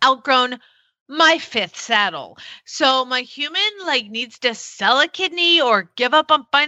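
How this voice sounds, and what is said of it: Usual voice. Nothing is said of it.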